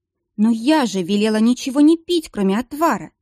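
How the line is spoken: Exclaimed. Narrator (Russian): воскликнула Анита

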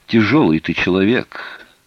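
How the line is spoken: Weary sigh. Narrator (Russian): Серж устало вздохнул

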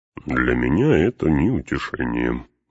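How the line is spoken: Grumble. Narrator (Russian): буркнул Гимли

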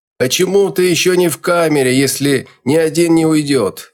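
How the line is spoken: Frantic scream. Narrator (Russian): Истошно заорал кто-то

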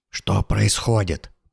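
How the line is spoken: Whisper. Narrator (Russian): прошептал Сэм

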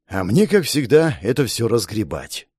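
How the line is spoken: Sighing. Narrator (Russian): вздохнул я

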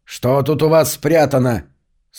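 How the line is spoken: Stern question. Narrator (Russian): строго спросил

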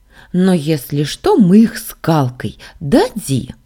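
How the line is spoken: Cheerful exclaiming. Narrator (Russian): воскликнула повеселевшая Сашка

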